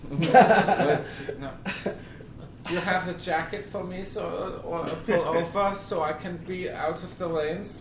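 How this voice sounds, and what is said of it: Put-on German accent. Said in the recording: “That's a German accent?”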